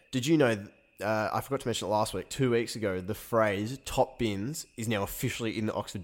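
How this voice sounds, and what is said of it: Nasal, congested voice. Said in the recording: “apologies if my voice is a little bit nasally. I'm coming off a bit of a cold ... why are you sounding so shit?”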